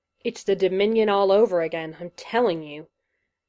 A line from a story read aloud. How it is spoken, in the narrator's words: he growled into the shoulder of his neighbor